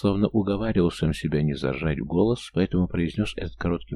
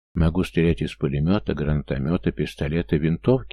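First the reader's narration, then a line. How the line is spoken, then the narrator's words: Quick listing. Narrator (Russian): быстро перечислил я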